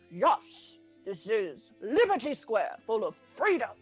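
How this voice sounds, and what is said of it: Poor cartoon eagle character voice. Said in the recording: “terrible Sam the Eagle impression”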